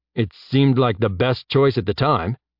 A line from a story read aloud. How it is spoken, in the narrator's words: Jeb said